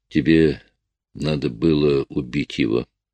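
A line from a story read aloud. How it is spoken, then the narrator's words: Quiet. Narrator (Russian): тихо сказала она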